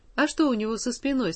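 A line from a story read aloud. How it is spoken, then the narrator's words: Plain question. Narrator (Russian): спросил дяденька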